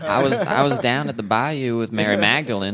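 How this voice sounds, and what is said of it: Put-on Southern US accent. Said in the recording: “Jesus has a Southern accent”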